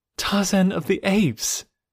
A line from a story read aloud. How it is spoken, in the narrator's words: she cried